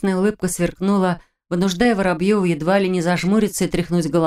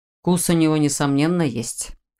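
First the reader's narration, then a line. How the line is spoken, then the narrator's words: Amused snort. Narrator (Russian): хмыкнул Морозов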